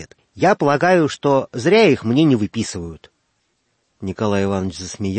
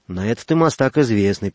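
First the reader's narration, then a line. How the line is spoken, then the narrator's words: Mumbling. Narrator (Russian): пробормотал Лаврентий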